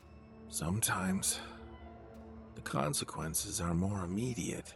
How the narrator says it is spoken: my friend sighed

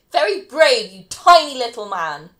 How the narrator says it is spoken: Felicity yells after him

